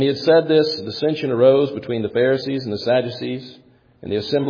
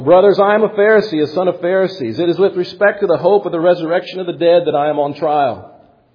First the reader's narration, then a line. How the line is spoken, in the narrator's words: he cried out in the council